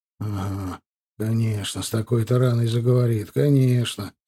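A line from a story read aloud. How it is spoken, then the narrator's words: Grumbling. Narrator (Russian): проворчал Герасим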